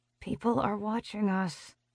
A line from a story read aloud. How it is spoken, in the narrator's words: I mutter